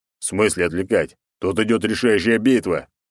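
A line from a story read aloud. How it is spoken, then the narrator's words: Genuine growl. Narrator (Russian): натурально зарычал он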